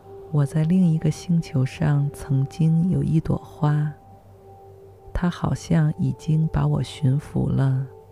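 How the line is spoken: Murmuring. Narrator (Chinese): 喃喃地说道

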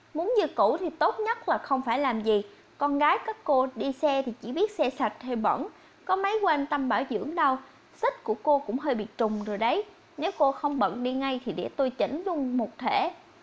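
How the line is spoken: Laughing. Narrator (Vietnamese): Lâm bật cười

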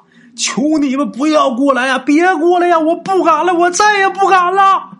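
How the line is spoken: Frantic repeated shouting. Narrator (Chinese): 嘴里边反复不停的就喊啊

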